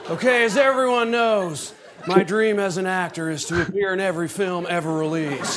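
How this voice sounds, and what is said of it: Nicolas Cage impression. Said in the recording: “Nick Cages ... That's a good impression, actually ... Nicolas Cage”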